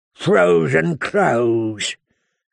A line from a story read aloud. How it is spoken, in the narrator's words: Craster sneered